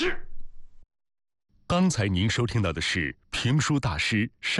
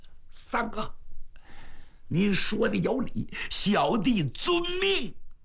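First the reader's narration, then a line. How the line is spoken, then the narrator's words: Angry tearful voice. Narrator (Chinese): 白瑞气哭了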